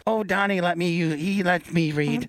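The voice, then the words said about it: Put-on Afghani accent. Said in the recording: “was that your Afghani accent? Yes.”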